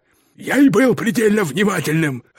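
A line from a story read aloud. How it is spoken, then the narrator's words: Barked. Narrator (Russian): рявкнул мистер Питерсон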